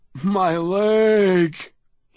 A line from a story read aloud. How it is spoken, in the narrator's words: he moaned